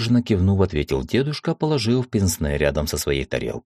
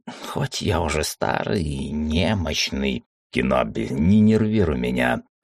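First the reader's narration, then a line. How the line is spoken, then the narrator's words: Growled. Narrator (Russian): рыкнул Уталак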